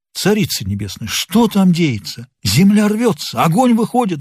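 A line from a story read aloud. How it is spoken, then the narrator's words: Pleading prayer. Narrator (Russian): взмолился Горохов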